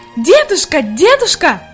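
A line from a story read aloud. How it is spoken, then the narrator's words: Shouting with all her might. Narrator (Russian): Изо всех сил кричала Хайди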